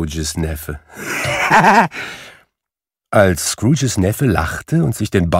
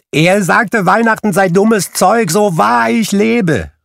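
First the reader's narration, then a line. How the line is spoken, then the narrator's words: Calling out. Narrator (German): rief Scrooges Neffe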